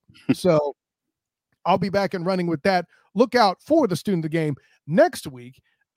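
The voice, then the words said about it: Voice recovering from illness. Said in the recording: “I was under the weather this week ... I was sick ... You can hear my voice is just now coming back”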